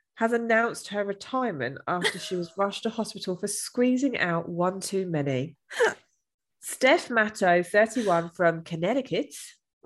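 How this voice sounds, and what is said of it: Put-on Australian accent. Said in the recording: “I did an Australian accent with that”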